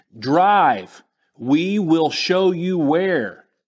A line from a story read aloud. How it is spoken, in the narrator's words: I shouted again